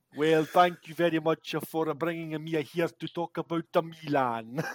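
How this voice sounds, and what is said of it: Joe Jordan impression, Scottish-Italian accent. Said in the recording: “Joe Jordan with his absolutely brutal Scottish Italian accent”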